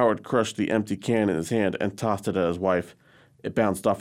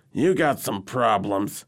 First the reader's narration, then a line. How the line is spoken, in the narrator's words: grumbled